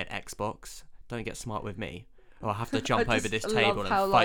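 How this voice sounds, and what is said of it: Usual voice. Nothing is said of it.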